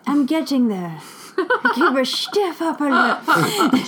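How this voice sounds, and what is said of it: Put-on British accent, poorly done. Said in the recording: “my very famous British accent ... You love my British accent ... It's terrible. It's awful.”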